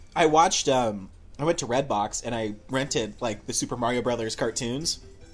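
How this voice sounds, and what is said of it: Usual voice. Nothing is said of it.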